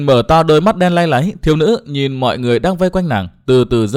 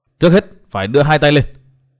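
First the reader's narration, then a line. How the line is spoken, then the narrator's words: Sudden loud shout. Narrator (Vietnamese): Bất giác Dương Văn Nghiêu hét to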